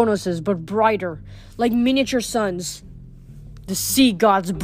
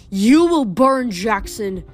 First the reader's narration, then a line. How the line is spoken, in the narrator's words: he roared